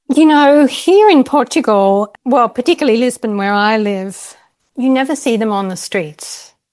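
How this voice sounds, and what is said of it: Australian accent. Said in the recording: “I love your accent. ... You're Australian.”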